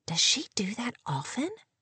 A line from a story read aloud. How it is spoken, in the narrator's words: Kate asked in a disapproving whisper